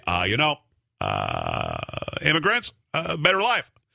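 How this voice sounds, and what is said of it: Obama impression. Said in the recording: “that was a great impersonation. ... That was not bad.”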